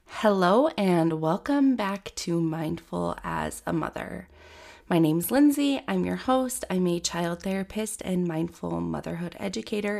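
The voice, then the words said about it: Raspy, stuffy voice. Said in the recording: “My voice is a little raspy, stuffy, because I have the winter cold”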